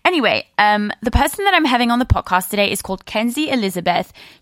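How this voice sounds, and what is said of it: Mixed English-American accent, grandmotherly. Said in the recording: “they loved my English/American voice ... I've always had a fucked up accent, but clearly it got worse along the way ... they also said that I sounded grandmamish”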